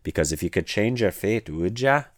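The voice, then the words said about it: Badly done put-on accent. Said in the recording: “That was a terrible accent”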